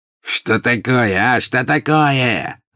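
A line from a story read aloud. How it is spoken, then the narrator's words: Angry shout. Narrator (Russian): закричал обозлившийся вдруг пожиратель смерти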